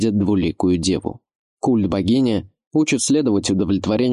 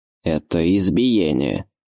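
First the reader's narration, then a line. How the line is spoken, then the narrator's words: Strained through gritted teeth. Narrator (Russian): сквозь зубы выцедил Эразм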